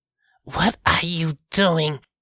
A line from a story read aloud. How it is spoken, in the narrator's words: she snarled